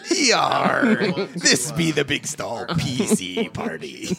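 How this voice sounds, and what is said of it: Put-on pirate accent. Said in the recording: “Kind of pirate accent there at the end ... I like how you tried to do a voice in it.”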